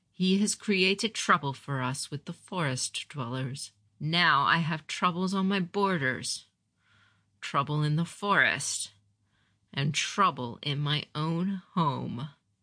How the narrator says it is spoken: Gohei said more quietly

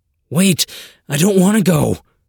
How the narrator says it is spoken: cried

